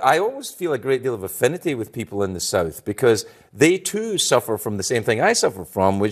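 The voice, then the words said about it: Scottish accent. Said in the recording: “people I meet think they can do my accent better than me ... If I say I'm from Scotland ... that is how I talk”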